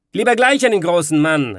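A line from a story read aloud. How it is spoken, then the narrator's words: Lord calling out. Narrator (German): rief der Lord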